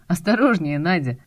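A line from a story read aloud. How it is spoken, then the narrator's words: Laughing. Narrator (Russian): смеясь сказал Ромка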